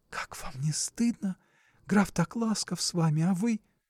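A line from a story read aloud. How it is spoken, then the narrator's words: Impatient whisper. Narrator (Russian): Наденька не вытерпела ... шепнула ему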